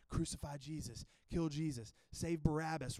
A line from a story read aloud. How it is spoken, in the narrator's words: in the background just whispering